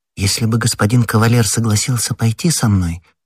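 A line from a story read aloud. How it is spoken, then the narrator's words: Timid. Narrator (Russian): робко сказала Кэти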